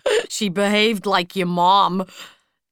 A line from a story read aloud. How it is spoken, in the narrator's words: Tony said, laughing